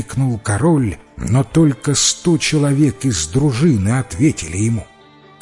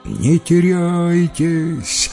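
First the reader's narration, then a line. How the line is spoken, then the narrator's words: Shouted. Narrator (Russian): закричал король своим воинам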